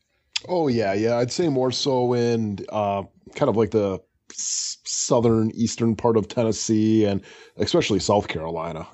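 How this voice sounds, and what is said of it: Wisconsin accent. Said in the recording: “apparently I have an accent ... you definitely still have held on to most of your Wisconsin”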